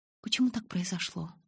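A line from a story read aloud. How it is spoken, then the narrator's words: Trembling question. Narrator (Russian): дрожащим голосом спросила я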